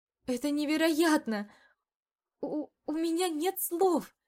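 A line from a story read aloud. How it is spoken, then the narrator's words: Speechless forced-out words. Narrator (Russian): Только и смогла выдавить, так как слов у меня действительно не было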